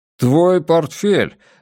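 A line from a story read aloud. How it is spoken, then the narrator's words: Exclaiming. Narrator (Russian): воскликнул Волк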